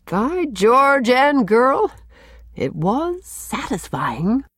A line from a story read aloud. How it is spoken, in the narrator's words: the doctor chuckled